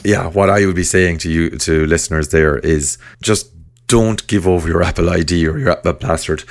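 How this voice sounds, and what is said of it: Hoarse, fading voice. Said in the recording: “I'm getting hoarse here now at the end of the year. My voice is going.”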